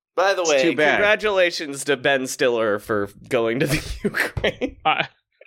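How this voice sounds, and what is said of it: Usual voice. Nothing is said of it.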